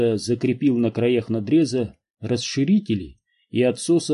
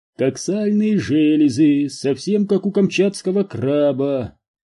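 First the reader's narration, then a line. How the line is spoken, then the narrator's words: Singsong. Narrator (Russian): нараспев проговорил Энди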